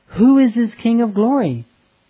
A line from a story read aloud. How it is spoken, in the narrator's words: With rapture, the angels in the city, who awaited His coming, cried out